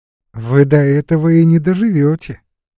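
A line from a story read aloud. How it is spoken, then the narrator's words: Cheerful deep contralto. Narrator (Russian): весело отвечала своим густым контральто Глафира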